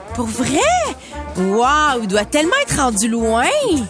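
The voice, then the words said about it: Imitates another person's accent. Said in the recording (French): “Toi, tu l'avais bien, l'accent.”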